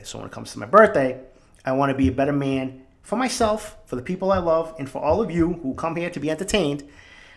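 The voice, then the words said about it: Boston accent. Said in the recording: “the Boston accent”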